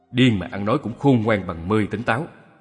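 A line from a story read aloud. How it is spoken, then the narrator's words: Harsh, critical. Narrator (Vietnamese): Hoàng Cái lại gây gắt phê bình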